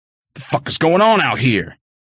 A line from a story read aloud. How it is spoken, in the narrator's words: Pops roared